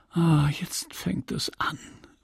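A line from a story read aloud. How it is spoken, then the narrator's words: Whisper. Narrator (German): flüsterte sie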